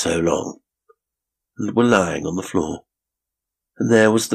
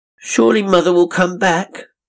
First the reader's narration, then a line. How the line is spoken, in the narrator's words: sobbed the turkey